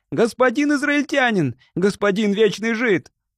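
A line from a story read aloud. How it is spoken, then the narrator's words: Breathless desperate shout. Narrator (Russian): Из последних сил, держась за сердце, Арабетте прибавил шагу и снова крикнул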